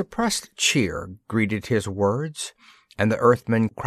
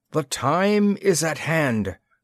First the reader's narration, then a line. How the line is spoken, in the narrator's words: cried a stern-faced man